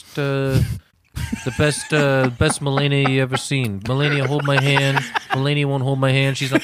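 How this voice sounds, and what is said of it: Imitates another person's voice. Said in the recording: “like Trump, you got to go like”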